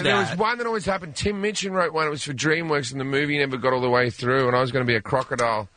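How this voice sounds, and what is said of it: Australian accent, slightly tipsy-sounding. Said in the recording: “You sound a little bit tipsy, but that's your delivery ... it's my accent ... not all Australians sound drunk all the time”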